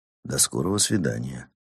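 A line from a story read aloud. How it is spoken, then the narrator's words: Quiet. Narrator (Russian): тихо сказал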